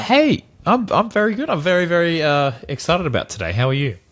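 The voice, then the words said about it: Australian accent. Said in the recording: “the man with the Aussie accent”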